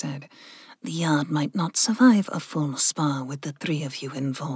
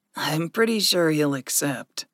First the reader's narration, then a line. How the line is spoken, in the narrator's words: Gregory chuckled